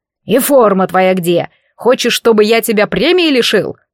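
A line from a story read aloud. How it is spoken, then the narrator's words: Angry bark. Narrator (Russian): рявкнул Юрикович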